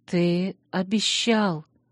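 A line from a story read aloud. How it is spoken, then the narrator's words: Trembling voice. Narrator (Russian): дрожащим голосом напомнила я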